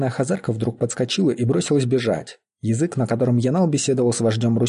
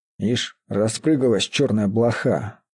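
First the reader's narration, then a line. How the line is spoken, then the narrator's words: Through gritted teeth. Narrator (Russian): проговорил он сквозь зубы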